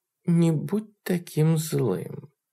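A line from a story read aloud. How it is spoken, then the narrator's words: Purring. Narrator (Russian): промурлыкала она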